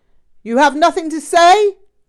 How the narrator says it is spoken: Rinpoche sat in silence for a while, glaring at me, then yelled

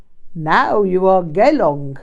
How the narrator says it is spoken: chuckled

